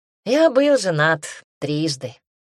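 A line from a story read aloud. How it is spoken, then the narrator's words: Wry snort. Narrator (Russian): хмыкнул Мэрил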